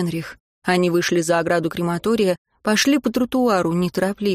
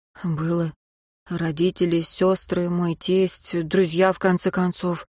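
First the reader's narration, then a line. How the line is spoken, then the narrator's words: Tired reply. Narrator (Russian): устало ответил Мартин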